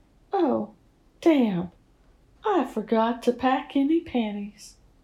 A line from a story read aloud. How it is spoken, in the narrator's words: commented playfully